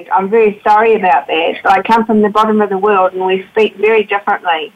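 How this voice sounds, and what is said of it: New Zealand accent. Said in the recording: “I'm going to translate all the Kiwi accent. ... He's giving me a hard time about my accent.”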